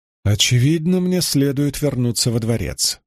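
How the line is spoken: Sighing woman. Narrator (Russian): вздохнула первенствующая

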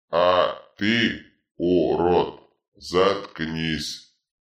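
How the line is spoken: Power-drunk bark. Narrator (Russian): рявкнул опьяневший от власти Дитрит

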